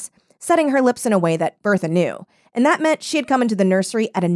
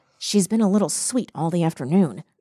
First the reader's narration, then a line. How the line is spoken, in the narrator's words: whispered Nanny